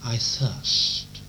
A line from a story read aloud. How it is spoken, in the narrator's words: he cries out